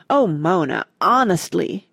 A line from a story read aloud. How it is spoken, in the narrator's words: groaned Randy